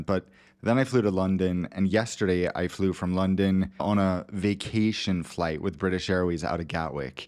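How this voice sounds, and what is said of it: American Los Angeles accent. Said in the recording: “the American accent, dude, is great too ... you bring the LA, do you have almond milk kind of accent”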